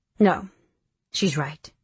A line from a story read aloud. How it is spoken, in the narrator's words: Nick says evenly